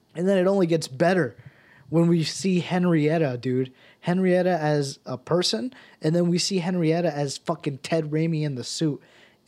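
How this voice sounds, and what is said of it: Slightly raspy voice. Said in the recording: “my voice was starting to sound a little raspy ... I'm starting to feel it in my throat now”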